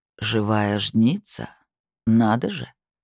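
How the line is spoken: Drawling. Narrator (Russian): протянул он

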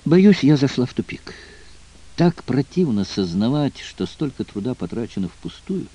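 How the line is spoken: Heavy sigh. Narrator (Russian): тяжело вздохнула Дэйна

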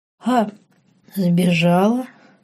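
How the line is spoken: Hoarse woman's laugh. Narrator (Russian): Женщина хрипло рассмеялась

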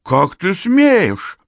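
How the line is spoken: Thin trembling exclamation. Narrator (Russian): воскликнул Закир тонким дрожащим голосом

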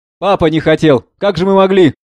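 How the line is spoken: Loud. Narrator (Russian): Громко

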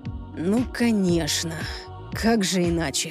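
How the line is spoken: Disappointed sigh. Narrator (Russian): Люциан разочарованно вздохнул

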